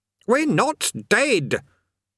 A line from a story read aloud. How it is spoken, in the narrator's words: Eric shouted